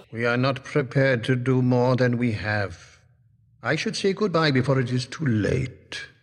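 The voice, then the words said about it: Welsh accent. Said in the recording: “that lovely Welsh accent”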